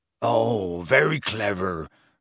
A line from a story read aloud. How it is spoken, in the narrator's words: growled Hagrid